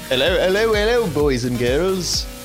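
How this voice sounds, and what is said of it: Put-on British accent. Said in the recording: “British accent ... Ah, that was pretty good. Not too bad.”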